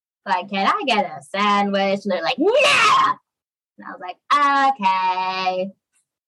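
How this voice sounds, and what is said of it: Imitates another person's voice. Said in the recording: “you do a really good impression.... can you do some John Mulaney for us?”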